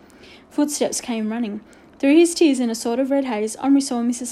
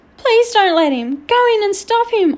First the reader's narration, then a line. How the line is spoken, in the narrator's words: Omri cried